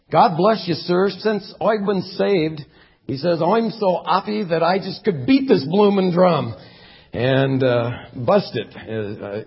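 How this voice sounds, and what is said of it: Cockney accent. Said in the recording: “in his Cockney accent, the drummer replied”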